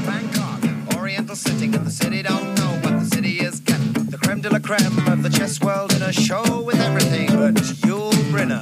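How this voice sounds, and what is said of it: Put-on New York accent, rapped. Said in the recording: “Head got to put on a New York accent and essentially rap the song”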